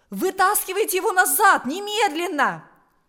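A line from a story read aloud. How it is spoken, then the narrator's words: Exclaimed. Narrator (Russian): воскликнул он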